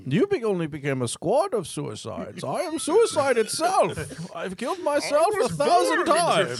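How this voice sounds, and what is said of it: Bane voice impression. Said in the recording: “you're not Bane. Stop doing the voice.”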